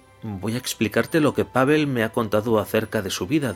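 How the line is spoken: Plain. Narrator (Spanish): dijo

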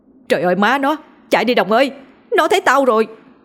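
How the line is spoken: Loud frantic yelling. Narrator (Vietnamese): la hét ầm lên miệng quang quang

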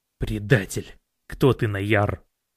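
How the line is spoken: Growled. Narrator (Russian): прорычал он

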